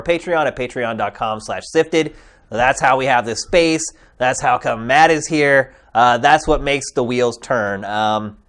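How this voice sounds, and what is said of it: Slightly nasal, under-the-weather voice. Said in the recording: “I've been a little bit under the weather ... my voice has been a little nasally today.”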